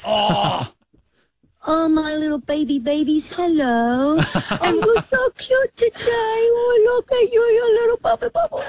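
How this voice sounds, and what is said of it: Baby voice. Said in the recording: “talk to us in a baby voice.”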